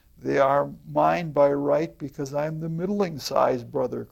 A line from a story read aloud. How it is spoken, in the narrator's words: cried the second